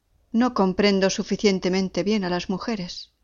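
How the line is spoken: Plain. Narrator (Spanish): respondió

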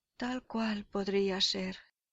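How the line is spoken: Sighing. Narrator (Spanish): suspira Leontes

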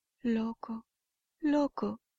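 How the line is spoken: Exclaimed. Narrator (Spanish): exclamó Aurora

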